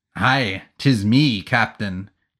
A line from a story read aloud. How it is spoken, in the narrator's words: Jack answered back gruffly